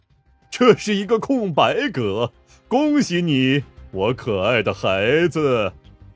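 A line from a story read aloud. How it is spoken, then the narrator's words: Smiling. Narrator (Chinese): 马里奥笑道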